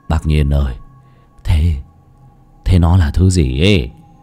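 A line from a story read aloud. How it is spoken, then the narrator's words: Trembling question. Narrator (Vietnamese): run rẩy hỏi Lão Nhiên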